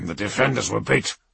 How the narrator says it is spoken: Halvdan growled

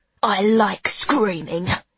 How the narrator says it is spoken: he hisses at me like an animal

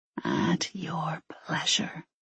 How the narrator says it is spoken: whispered

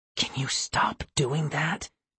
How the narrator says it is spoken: Tessa whispered

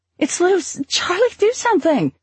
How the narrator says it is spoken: Anne screaming

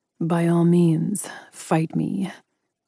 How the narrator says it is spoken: he purred

